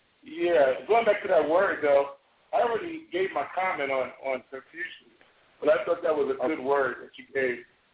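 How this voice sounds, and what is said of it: Hoarse, strained voice. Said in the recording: “I'm a little hoarse because I was performing last night, and my voice is kind of you know, aching me”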